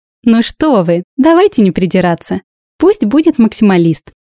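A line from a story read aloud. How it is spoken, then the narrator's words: Exclamation. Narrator (Russian): воскликнула Лилия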